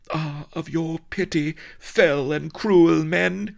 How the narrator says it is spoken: she cried

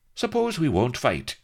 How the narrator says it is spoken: asked Blood brightly

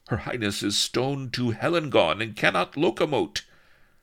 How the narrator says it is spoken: faltered Prisiltlin

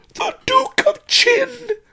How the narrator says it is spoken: screamed Pawnbroker Fang

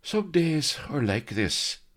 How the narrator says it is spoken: he sighed

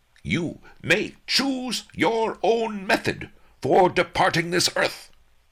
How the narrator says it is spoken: he yelled

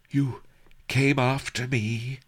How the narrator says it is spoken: Her voice trembled with wonder

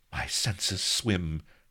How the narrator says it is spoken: faltered

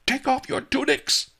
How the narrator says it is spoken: Master Li yelled

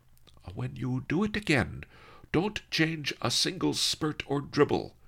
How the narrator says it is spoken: Master Li said firmly

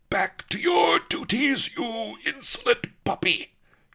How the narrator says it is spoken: he roared

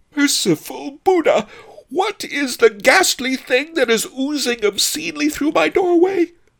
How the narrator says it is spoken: howled Pretty Ping

